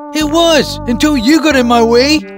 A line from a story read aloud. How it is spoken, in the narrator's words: angrily answered